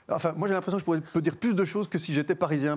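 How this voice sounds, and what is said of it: Brussels Belgian French accent. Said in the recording (French): “l'accent ... un accent bruxellois”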